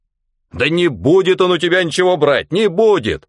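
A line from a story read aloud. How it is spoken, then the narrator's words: Shouting. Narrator (Russian): уже кричал начальник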